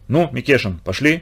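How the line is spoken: Quiet question. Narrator (Russian): тихо спросил

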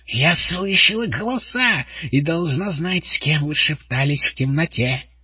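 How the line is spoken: Shrieking. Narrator (Russian): завизжала она

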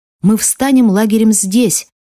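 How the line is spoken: Shouting. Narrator (Russian): закричал Арам

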